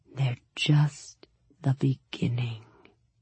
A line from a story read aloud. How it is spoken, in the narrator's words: he whispered